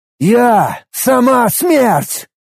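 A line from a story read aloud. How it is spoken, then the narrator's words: Exhausted shout. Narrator (Russian): Из последних сил прокричал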